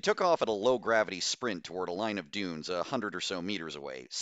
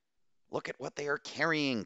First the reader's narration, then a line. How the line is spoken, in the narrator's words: Castile gasped